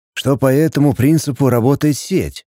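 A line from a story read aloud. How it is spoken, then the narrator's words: Sighing. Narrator (Russian): вздохнул Пятый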